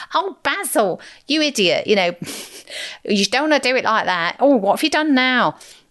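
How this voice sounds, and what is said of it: Imitates a TV character's nagging voice. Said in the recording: “She is a bit like Sybil Fawlty ... It's not a very good Sybil impression”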